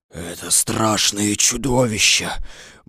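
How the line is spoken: Fearful whisper. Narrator (Russian): боязливо прошептал лев

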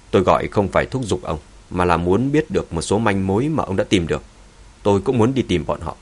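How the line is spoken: Cold. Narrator (Vietnamese): lạnh lùng nói

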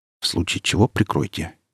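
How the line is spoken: Quiet request. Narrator (Russian): негромко попросил

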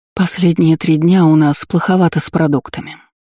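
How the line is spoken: Heavy sigh. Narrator (Russian): тяжело вздохнула Дисси

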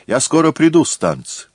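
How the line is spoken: Shouted. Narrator (Russian): Но он крикнул ей

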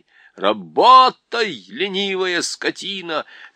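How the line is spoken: Angry shout. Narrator (Russian): закричал один из тархистанцев

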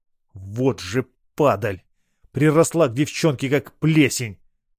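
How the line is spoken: Through gritted teeth. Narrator (Russian): процедил я сквозь зубы

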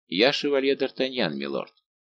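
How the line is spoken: Calm. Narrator (Russian): овладел собой и произнес спокойно

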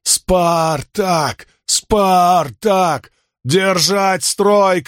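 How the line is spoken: Shouting. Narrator (Russian): крикнул Спартак

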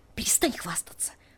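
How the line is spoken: Hissed through teeth, hushed. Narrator (Russian): прошипела я сквозь зубы, чтобы бабушка Тони не услышала

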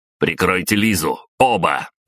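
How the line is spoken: Barked order. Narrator (Russian): рявкнул я

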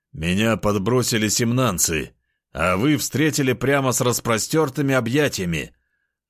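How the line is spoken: Wry snort. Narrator (Russian): хмыкнул в ответ

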